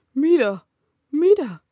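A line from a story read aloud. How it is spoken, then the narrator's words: Rosebush shouting. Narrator (Spanish): gritó el rosal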